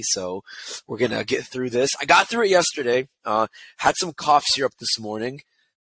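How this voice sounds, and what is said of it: Hoarse, partly lost voice. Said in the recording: “if you can't tell already, my voice is a little bit gone because welcome to allergy season”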